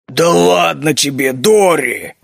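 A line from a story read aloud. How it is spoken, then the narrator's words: Familiar grumbling. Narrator (Russian): фамильярно пробурчал клык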